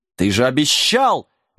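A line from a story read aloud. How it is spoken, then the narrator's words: Indignant roar, old man. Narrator (Russian): возмущенно взревел старый волшебник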